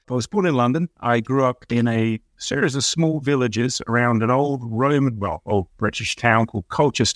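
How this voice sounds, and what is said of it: Non-American accent. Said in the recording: “as you can probably guess from the accent, I'm not from around here, here being Michigan”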